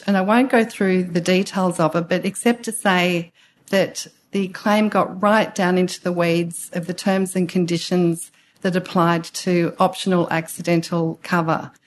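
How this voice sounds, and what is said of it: Strained, failing voice. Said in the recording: “excuse me, I'm losing my voice,”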